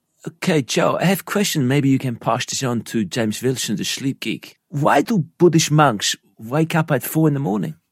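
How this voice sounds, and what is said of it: Put-on Dutch accent. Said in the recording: “you do the better Dutch accent”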